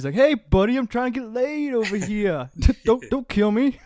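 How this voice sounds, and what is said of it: Put-on New York or Canadian accent. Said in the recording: “Is that a New York Canadian accent?”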